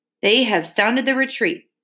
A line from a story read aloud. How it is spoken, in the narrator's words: the brave queen cried